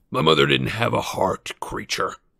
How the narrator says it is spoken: snapped Sirius

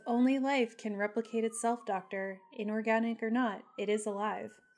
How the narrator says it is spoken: Data softly says

